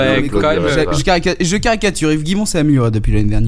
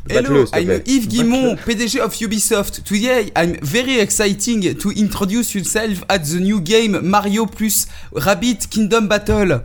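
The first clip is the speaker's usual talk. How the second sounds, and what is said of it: Exaggerated French-accented broken English. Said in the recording (French): “le meilleur accent anglais de la planète ... le mauvais accent de, du, boss d'Ubisoft et en plus le mauvais anglais”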